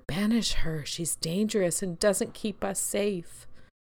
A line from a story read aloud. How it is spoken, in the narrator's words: Anxiety whispered in my ear